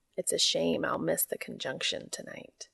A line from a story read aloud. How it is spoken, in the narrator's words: he says, but even as he says it, he's smiling softly